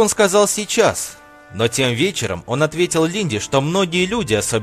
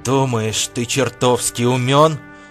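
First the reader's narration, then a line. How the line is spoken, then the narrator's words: Hissed. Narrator (Russian): прошипел Глен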